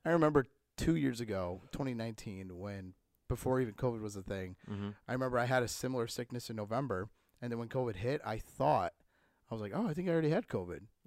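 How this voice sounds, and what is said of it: Hoarse, weak voice from a cold. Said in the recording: “My voice is gone. I have a cold”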